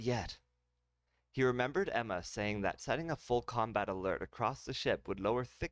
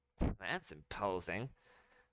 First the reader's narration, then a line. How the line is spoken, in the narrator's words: Billy muttered